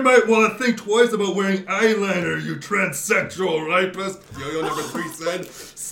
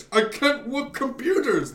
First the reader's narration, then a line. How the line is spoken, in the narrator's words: the toy pleaded